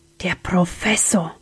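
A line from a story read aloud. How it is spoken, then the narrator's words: Whispered. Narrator (German): wisperte Sam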